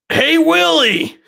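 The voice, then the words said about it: Impression of Alf's catchphrase voice. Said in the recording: “I will do my best impression of this catchphrase ... That was perfect. It's the best one I've ever heard.”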